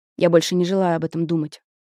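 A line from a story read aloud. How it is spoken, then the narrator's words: Plain. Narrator (Russian): сказал Летелье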